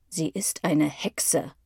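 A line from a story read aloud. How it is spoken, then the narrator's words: Growling. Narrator (German): knurrt der Zweite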